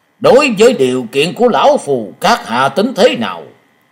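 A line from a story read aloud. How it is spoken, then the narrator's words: Threatening tone. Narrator (Vietnamese): với giọng uy hiếp hắn nói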